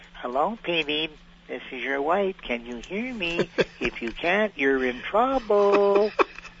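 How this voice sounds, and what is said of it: Imitation of Mrs. Popoff's voice. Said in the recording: “That's a pretty good imitation. ... That was very good. ... You nailed that one, actually.”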